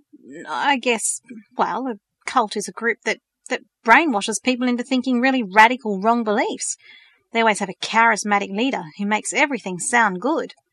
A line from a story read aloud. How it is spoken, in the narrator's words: he stammered